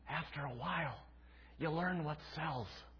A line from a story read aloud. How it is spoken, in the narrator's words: whispers